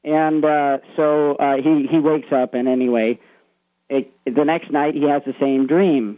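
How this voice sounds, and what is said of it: Usual voice. Nothing is said of it.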